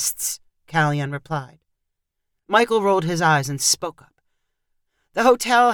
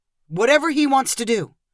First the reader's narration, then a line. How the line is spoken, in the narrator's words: Michael snapped in reply